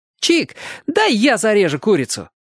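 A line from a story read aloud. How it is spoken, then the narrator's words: Joyful shout. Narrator (Russian): радостно крикнул Оник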